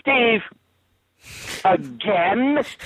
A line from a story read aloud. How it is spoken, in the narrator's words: yells out loud